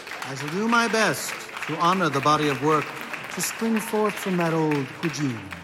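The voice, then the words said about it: Fake-sounding dapper accent. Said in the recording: “he's a dapper cannibal type, and I'm pretty sure his accent is fake”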